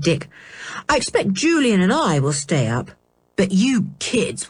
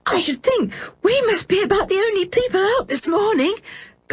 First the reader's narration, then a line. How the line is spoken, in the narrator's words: gasped George